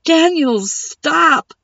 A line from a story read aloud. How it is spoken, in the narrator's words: Seven yelled